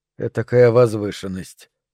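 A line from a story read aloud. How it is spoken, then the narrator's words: Muttered. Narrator (Russian): пробормотал он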